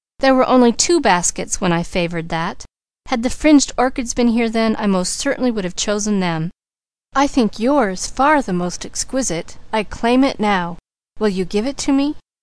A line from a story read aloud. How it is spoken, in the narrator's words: cried Douglas